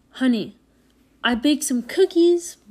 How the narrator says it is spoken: Mom yelled from the kitchen

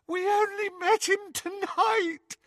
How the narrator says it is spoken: Hermione sobbed

